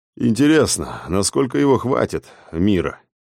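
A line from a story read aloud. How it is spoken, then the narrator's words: Thoughtful mumble. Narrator (Russian): задумчиво пробормотал Алекс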